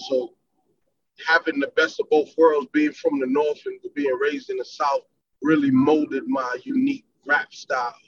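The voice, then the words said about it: Northern US accent. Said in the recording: “when I talk, you can hear my accent, my up north accent.”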